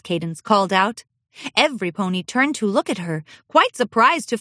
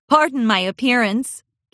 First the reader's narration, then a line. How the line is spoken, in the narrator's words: Cadence laughed